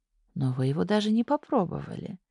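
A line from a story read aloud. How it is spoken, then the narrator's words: Habitual sigh. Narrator (Russian): привычно вздохнула Улька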